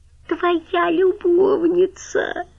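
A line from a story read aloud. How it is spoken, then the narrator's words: Squeaky voice. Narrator (Russian): пропищала Галя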